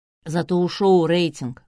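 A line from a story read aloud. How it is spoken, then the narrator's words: Wry grunt. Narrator (Russian): хмыкнул Полуянов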